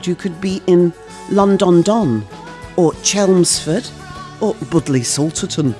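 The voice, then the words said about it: Put-on northern English twang. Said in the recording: “I don't know why I said that in such a northern twang.”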